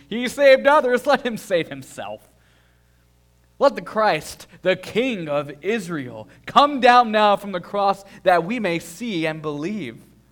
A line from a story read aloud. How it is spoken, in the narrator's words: mocked him to one another, saying